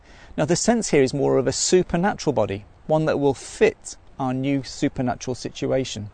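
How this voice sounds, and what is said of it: Mancunian accent with Australian tinge. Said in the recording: “I've got a bit of an accent ... Manchester, where I'm from ... its original Mancunian ... sounding Aussie”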